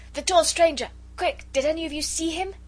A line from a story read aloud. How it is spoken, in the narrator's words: he had managed to stammer between two sneezes